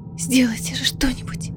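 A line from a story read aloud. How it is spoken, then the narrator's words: Whisper. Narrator (Russian): прошептала Элида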